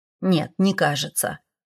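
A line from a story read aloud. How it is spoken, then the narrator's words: Grumbled. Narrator (Russian): буркнул Седрик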